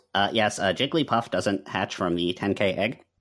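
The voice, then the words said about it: Nerdy put-on voice. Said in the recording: “put on your nerd voice.”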